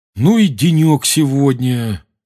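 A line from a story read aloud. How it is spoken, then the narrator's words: Groaned. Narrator (Russian): простонал Рон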